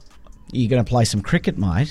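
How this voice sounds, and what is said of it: Put-on Australian accent. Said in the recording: “say something in an Australian accent”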